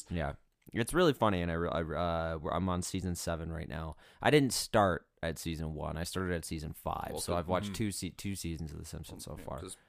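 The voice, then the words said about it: Voice sounds sick. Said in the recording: “I was sick a lot, so I'm sure you can still hear it in my voice.”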